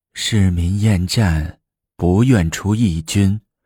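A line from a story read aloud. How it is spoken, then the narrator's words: Heavy sigh. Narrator (Chinese): 女皇长叹一口气说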